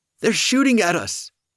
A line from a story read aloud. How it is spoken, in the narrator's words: Oliver shouted from the stairwell